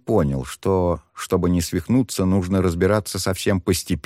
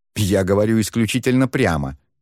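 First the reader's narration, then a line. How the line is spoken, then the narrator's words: Indignant huffing fox. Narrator (Russian): возмущенно фыркнула лиса, словно ее оскорбили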